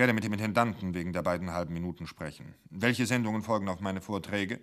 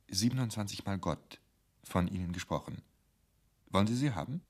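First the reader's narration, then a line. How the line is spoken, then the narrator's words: Quiet. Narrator (German): Murke sagte leise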